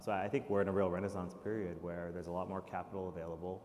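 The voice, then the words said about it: American accent. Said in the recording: “you'll be able to hear from the accent that he's an American who's moved over, but started off in the States.”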